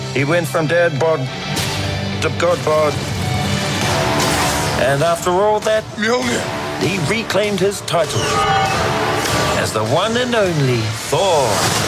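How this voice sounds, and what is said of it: New Zealand accent. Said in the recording (Dutch): “als je goed luistert, hoor je een echte Nieuw-Zeelands accent.”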